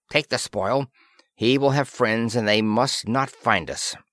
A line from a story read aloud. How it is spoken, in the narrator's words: she snapped at Planter